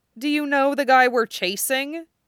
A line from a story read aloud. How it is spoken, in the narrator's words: Duo countered dryly